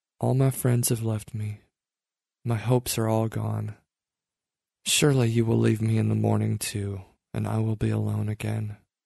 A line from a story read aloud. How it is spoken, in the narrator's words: I said quietly